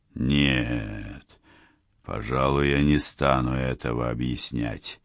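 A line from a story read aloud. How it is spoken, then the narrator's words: Whispering wizard. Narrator (Russian): прошептал кудесник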